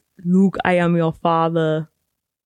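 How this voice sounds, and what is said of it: Arnold Schwarzenegger impression. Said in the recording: “why did I just do an Arnold Schwarzenegger impression? ... It was good.”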